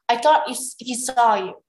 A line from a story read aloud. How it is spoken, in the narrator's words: she growled